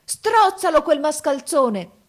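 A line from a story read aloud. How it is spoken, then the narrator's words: Wizard yelling. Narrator (Italian): urlò il mago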